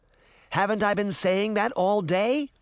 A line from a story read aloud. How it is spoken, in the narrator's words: Sabrina cried